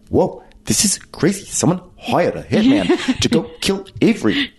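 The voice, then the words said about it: Impression of another woman's speech. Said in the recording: “I do her impersonation so much that like my speaking pattern is starting to become like I'm starting to speak more like this ... my impersonation of Ramona is like”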